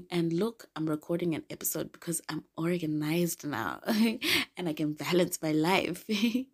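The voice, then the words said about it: Raspy voice. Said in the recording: “my voice, which I think sounds raspy because I'm recovering from a cold ... I'm sorry if my voice sounds a little raspy.”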